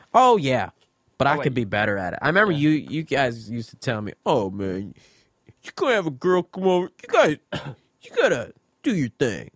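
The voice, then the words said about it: Imitates another person's voice. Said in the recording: “Who's that an impression of? ... your brother.”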